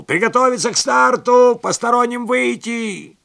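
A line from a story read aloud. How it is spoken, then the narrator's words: Coach shouting. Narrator (Russian): тренер крикнул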